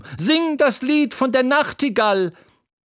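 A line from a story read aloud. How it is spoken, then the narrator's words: Woman shouting from audience. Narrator (German): schrie eine Frau im Publikum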